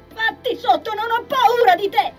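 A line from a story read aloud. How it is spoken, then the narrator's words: Yelling at full lungs. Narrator (Italian): urlò, con tutto il fiato che aveva in gola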